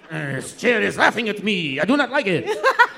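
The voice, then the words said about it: Put-on French accent. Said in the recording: “Your French impression is good ... That's our really good French accent.”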